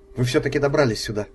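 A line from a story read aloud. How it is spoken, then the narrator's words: Sharp, curt. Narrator (Russian): резко бросила она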